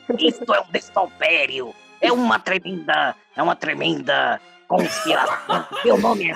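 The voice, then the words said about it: Imitates another person's voice. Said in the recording (Portuguese): “essa foi a melhor imitação do Neus que eu vi toda a minha vida”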